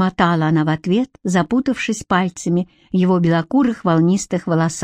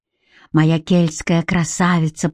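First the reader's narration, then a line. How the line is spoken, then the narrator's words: Moaned. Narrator (Russian): простонал он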